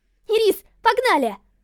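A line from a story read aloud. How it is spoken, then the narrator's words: Shouting. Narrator (Russian): Закричала Лилит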